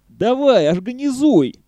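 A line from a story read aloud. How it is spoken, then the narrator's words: Furious yelling. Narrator (Russian): в ярости заорал Вася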